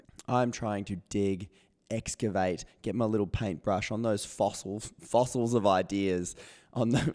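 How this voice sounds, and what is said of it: Voice not working properly. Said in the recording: “excuse my voice. It's not working properly today”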